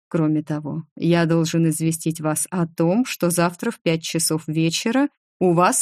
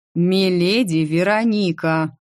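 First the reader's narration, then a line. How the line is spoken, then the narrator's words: Growled. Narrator (Russian): прорычал имперец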